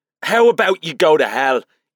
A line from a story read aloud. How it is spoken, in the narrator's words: Ethan sputtered